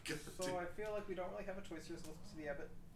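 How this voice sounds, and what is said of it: Speaks very fast. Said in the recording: “I'm gonna say that really fast ... I said, I feel like we don't have a choice right now, really fast.”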